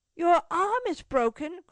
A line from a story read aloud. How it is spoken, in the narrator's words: cried Cecil with emotion